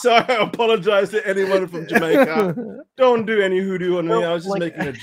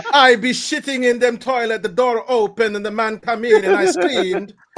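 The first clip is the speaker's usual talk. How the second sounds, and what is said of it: Deliberately bad Jamaican accent. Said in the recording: “we all talk in a Jamaican accent ... It was a horrible Jamaican accent.”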